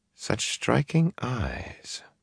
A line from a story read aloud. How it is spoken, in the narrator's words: she murmured half to herself